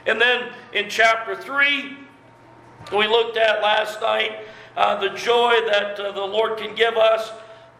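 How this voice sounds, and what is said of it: Strained, failing hoarse voice. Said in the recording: “I'm losing my voice here.”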